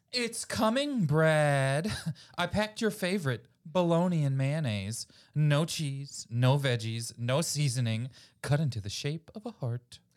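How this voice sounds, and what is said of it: Sing-songy mom voice. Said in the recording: “A mom yells back from the kitchen in a sing-songy mom voice.”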